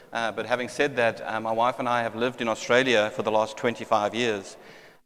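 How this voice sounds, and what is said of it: South African accent. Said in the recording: “I'm not sure if my accent gives me away, but I am South African by birth”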